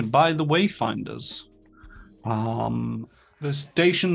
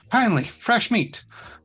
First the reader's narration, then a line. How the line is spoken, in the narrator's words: the Yosoki exclaims over the screen, sounding pleased